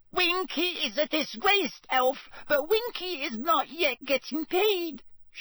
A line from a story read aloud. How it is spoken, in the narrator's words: she squeaked